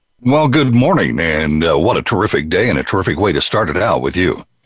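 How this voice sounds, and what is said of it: Polished radio announcer voice. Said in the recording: “if that's not a radio voice”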